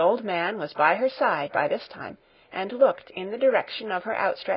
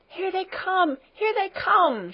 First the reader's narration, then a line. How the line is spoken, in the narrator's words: shouted Heidi, jumping with joy